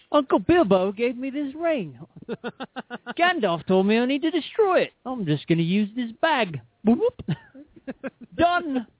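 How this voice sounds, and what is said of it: Put-on Australian-sounding accent, poorly done. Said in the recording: “When did he become Australian? ... Horrible English accent. ... I wasn't doing an English accent”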